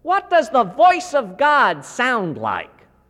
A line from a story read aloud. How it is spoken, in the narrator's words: He spoke loudly enough for the question to echo through the entire church